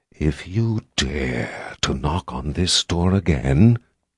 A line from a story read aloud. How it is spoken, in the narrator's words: Six hissed